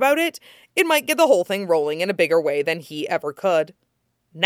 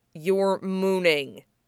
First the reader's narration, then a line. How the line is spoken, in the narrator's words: he mumbled around a mouthful of cool soba